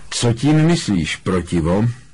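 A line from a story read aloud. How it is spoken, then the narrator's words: Calm retort. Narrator (Czech): opáčil klidně Brumbál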